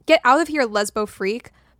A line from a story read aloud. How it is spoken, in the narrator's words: Mallory yelled from the diving board